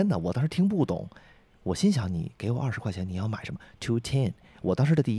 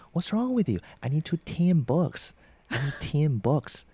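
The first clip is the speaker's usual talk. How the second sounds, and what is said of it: Imitated local English accent. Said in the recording (Chinese): “这就是他们的口音啊”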